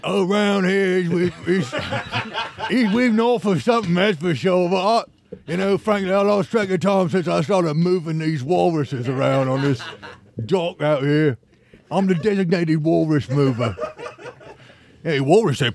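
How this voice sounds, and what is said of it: Dockworker character voice, northern dialect. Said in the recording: “you do dialects and characters and impersonations ... Is that like a, you would say like a northerner of a...”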